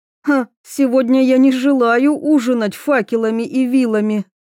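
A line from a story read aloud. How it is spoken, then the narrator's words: Laughing loudly. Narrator (Russian): Мира расхохоталась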